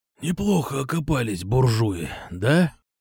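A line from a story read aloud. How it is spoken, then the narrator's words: Wheezing. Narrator (Russian): просипел Кукуша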